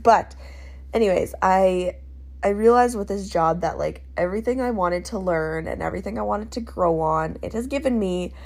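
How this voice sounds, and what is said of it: Congested, stuffy nasal voice. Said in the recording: “I'm a little clogged up in my little nosy. I apologize if I sound weird.”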